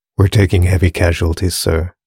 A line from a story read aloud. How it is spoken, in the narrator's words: he sighed